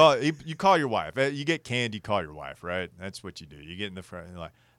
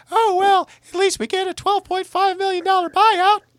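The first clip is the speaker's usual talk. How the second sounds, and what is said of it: Imitates another person's voice. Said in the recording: “this is my Mrs. Prude impersonation.”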